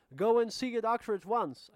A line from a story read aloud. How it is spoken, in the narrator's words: shouted